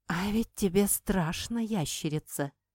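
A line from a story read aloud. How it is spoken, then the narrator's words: Hiss. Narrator (Russian): прошипела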